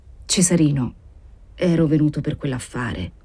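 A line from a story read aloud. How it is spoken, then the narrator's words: Stammering with effort. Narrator (Italian): Don Crescenzo sentì legarsi la lingua e fu con un grande sforzo che balbettò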